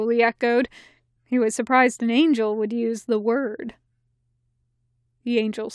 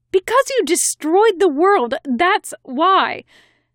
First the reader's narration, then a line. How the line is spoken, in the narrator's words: the angel snapped, as though she thought she shouldn't have needed to explain this to him